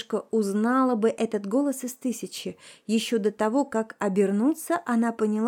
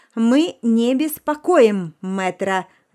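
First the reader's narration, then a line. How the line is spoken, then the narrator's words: Barked shout. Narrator (Russian): гаркнула она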